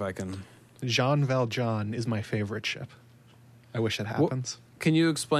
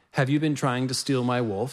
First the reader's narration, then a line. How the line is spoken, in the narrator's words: he asked her